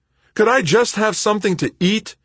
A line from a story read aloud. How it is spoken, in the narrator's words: shouted over their voices